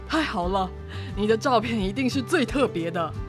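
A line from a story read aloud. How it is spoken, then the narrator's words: Father, laughing. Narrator (Chinese): 爸爸笑着说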